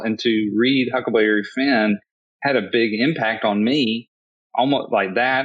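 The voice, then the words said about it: Southern American accent. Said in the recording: “I grew up in the South, obviously from my accent.”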